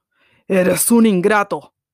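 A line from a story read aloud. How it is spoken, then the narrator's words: Terrible beast voice. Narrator (Spanish): dijo la fiera con una voz terrible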